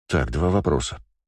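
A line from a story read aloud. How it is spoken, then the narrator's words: Said in an undertone. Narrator (Russian): сказал я вполголоса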